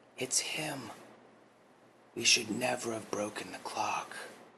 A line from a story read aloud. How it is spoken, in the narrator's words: A look of realization came upon April's face as she whispered over to June